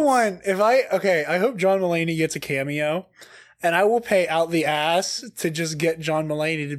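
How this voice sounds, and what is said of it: Usual voice. Nothing is said of it.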